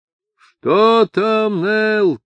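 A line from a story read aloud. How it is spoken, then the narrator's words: Thunderous shout over wind. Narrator (Russian): крикнул Ишмаэл громовым голосом, перекрывшим свист ветра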